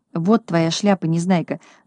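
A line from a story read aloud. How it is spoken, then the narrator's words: Whisper. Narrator (Russian): зашептал Мига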